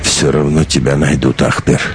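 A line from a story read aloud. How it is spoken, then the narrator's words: Sigh. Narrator (Russian): вздохнул Вартанчик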